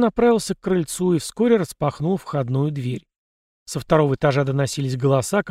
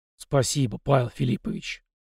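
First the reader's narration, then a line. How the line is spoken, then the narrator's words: Man mumbling. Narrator (Russian): пробормотал мужчина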